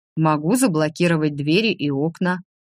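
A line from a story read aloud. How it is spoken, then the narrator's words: Businesslike offer. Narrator (Russian): деловым тоном предложил дракон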